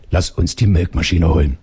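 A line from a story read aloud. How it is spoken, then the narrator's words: Calmly. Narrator (German): sagte Karin ruhig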